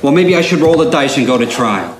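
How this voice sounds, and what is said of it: Wise guy gangster accent. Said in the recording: “I'm still doing the wise guy accent.”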